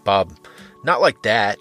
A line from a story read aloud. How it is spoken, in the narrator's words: he laughed